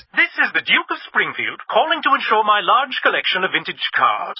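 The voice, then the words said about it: Fake posh duke accent. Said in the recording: “the fake accent”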